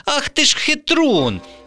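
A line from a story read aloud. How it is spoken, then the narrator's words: Indignant exclamation. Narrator (Ukrainian): обурено вигукнула Вікуся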